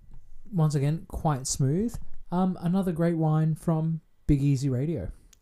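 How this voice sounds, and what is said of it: Mock radio announcer voice. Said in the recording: “using my radio voice. Actually, that was terrible.”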